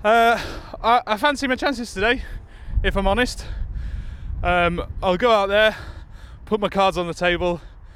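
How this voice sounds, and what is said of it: Out of breath, panting speech. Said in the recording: “I'm sorry, very out of breath.”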